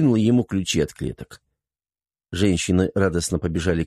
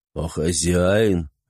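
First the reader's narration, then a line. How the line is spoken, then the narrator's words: Lazy question. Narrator (Russian): лениво спросил Ибрагим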